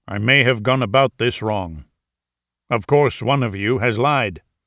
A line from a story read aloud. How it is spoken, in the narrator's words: Wolf grumbled